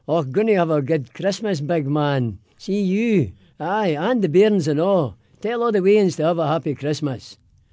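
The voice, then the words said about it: Put-on Glaswegian Scottish accent. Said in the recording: “your best Merry Christmas in a Scottish brogue ... but in a Scottish accent, in Glaswegian”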